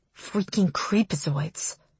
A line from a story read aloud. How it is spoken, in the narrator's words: I murmur